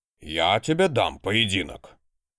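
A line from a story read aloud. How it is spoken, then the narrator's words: Loud bark. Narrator (Russian): гаркнул обычно не повышающий голос библиотекарь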